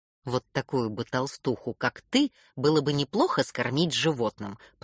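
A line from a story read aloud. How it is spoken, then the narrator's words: Father grumbling. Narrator (Russian): пробурчал папа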